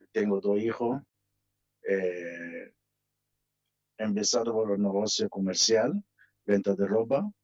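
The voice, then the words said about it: Foreign, non-Argentine accent in Spanish. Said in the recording (Spanish): “por el acento que tiene, obviamente no es argentino ... Por el acento que tiene al hablar”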